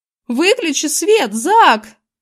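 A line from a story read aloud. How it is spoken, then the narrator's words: Wild yell. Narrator (Russian): заорал дурным голосом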